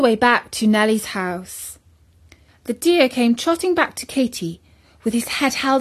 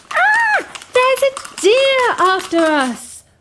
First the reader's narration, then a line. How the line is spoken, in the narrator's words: The two girls ran screaming